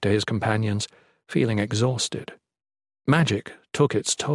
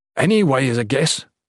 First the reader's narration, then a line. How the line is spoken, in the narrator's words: Jen wheezed, trying to catch his breath